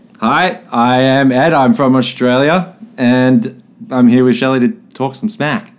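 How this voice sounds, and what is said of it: Australian accent. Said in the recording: “he has a little bit of an accent”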